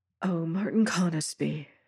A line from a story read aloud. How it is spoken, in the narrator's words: whispered